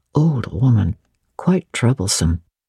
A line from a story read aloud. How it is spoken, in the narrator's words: said something to him in a low voice